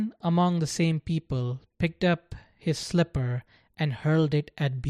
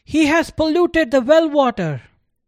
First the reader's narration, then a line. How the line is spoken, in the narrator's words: Another yelled